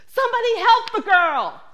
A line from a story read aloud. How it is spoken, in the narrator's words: far away, this high, shrill voice screaming